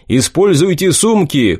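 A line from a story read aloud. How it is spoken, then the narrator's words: Shouting. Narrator (Russian): крикнул я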